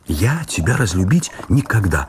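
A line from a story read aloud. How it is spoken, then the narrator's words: Ardent exclamation. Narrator (Russian): воскликнула горячо Раиса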